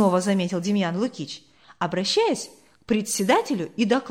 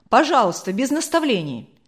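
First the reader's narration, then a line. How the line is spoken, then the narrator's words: Angry interruption. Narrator (Russian): сердито оборвал Демьяна Лукича председатель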